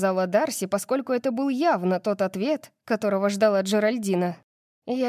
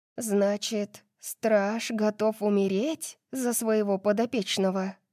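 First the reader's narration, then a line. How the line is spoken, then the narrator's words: Lowered whisper. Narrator (Russian): спросила Дарси, понизив голос до шепота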